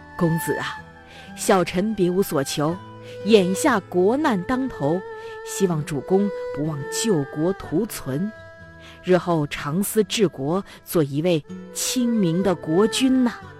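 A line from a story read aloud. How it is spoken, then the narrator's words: Laughing speech. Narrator (Chinese): 介子推却笑着说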